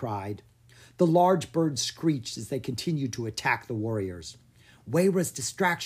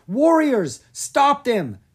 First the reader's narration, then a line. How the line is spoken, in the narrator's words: She yelled